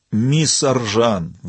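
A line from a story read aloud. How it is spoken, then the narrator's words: Pleading. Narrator (Russian): взмолился Денью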